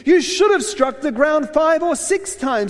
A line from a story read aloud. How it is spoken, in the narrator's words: he exclaimed